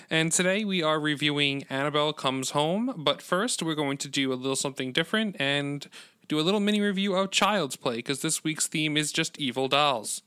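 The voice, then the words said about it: Salesman-like pitch delivery. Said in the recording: “You sound like a salesman.”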